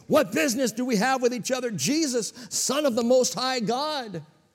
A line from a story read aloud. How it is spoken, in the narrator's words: he cried out and said, again, with a loud voice